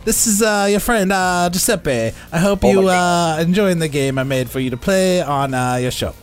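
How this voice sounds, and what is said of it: Put-on Italian accent. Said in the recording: “your Italian accent is on point”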